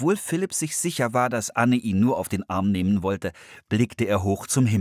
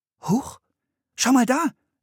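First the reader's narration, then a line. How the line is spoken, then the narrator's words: Calling out. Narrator (German): rief Anne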